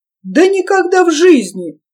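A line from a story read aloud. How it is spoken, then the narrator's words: Blissful exclamation. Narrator (Russian): с широкой блаженной улыбкой воскликнул Соболев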